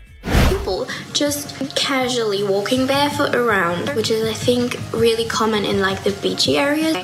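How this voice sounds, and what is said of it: Australian accent. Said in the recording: “her Australian accent ... Is she faking that accent, Australian accent?”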